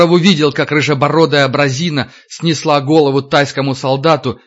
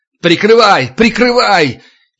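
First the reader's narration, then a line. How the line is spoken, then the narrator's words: Yelling at top of lungs. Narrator (Russian): Егоров орал во все горло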